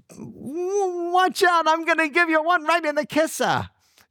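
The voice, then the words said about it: Imitated New York accent. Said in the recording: “little 5'2" Jewish lady ... She said with her New York accent.”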